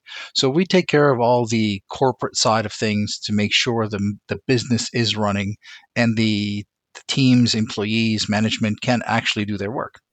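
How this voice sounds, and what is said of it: Speaks with a noticeable accent. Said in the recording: “You've got such a lovely voice. You've got such a lovely accent.”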